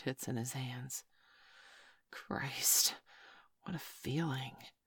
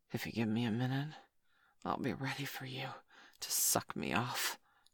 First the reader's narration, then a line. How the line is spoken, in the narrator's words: he gasped